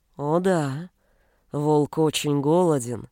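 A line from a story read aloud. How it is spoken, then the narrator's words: Declaring. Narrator (Russian): заявил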